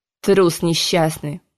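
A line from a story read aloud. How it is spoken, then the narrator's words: Contemptuous snort. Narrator (Russian): Презрительно фыркнул король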